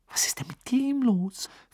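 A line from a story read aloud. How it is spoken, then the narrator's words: Whisper. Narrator (German): flüsterte Hermine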